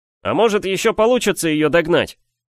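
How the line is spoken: Dashing shout. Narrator (Russian): лихо выкрикнул я

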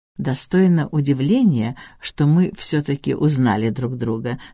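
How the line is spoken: Plain. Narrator (Russian): сказала Бесс Седжвик

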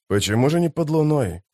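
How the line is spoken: Muttered. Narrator (Russian): пробормотал историк

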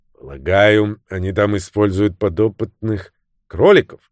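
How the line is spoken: Sudden grumble. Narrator (Russian): неожиданно проворчала миссис Анструтер

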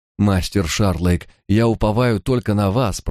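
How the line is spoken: Moaning plea. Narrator (Russian): простонал он

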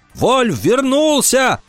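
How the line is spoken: Shouting. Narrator (Russian): закричал он

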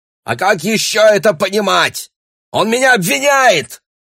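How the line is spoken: Shouting across table. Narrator (Russian): кричал Бруно через стол

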